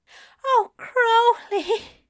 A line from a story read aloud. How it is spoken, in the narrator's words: Aziraphale moans, his mouth wet and hot on Crowley's back